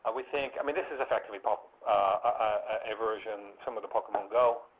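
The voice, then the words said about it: American accent. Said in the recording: “I'm American, you can probably tell from my accent”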